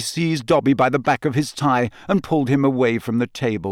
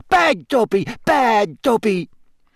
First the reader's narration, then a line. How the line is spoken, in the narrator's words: squealing